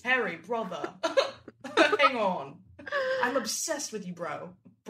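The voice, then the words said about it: Justin imitated with English accent. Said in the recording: “He just starts speaking in an English accent.”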